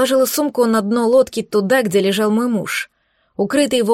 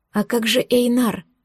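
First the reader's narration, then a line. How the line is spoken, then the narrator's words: Quiet question. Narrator (Russian): Спросила тихо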